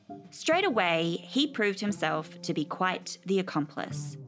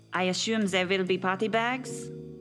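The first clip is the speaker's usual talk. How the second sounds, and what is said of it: Put-on French accent. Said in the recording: “Nino was French, in case you couldn't tell from that impeccable accent.”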